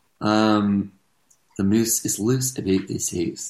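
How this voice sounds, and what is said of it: Put-on Scottish accent. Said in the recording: “That's how you get into the Scottish accent.”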